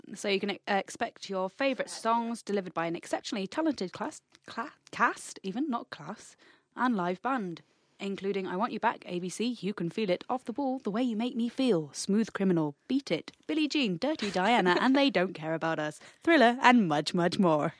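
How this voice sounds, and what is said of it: Cheesy radio announcer voice. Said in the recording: “I think that was the best radio voice I've ever heard... I save it for supremely cheesy... Occasions”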